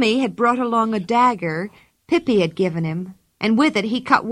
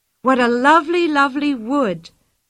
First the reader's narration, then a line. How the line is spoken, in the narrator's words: cried Anika in delight